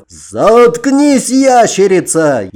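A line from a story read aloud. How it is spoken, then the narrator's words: Knight's furious roar. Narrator (Russian): яростно взревел рыцарь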